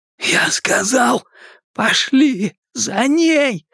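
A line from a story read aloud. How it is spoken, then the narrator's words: Strained, forced out. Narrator (Russian): Удалось выдавить ему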